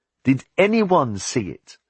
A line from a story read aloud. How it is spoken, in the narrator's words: Reynold said, his voice rising as he scented victory